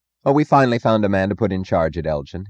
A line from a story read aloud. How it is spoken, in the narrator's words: he said, forcing his voice to sound confident